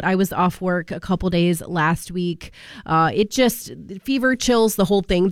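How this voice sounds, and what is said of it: Sick, congested voice from a cold. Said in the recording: “You can probably hear it in my voice. I've really been struggling with a cold.”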